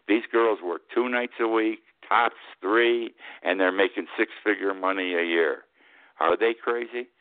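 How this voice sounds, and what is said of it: Raised, loud voice. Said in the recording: “raising my voice.”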